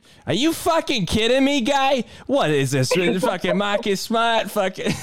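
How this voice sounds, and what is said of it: Angry Boston fan voice. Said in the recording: “an angry Boston Celtics fan ... I got my Bostonian on deck”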